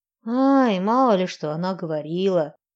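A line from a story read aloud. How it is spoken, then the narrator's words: Grumbling. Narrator (Russian): проворчала я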